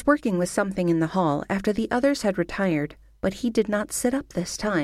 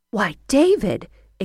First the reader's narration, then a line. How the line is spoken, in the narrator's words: exclaimed his mother